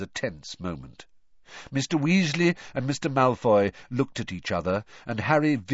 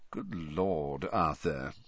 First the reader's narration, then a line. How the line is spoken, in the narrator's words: said softly